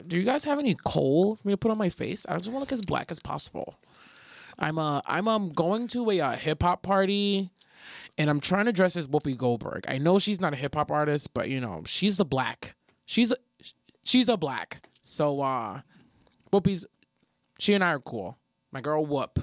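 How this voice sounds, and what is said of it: Imitated voice of a white girl. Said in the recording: “That's my impression of like a white girl.”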